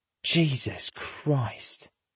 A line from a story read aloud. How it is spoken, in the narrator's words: Lindstrom whispers